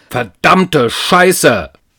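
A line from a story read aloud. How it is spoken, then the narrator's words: Sudden roar. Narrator (German): brüllte er unvermittelt los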